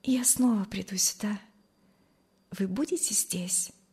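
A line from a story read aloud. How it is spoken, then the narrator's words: Quiet, shy. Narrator (Russian): сказала она тихо и залилась румянцем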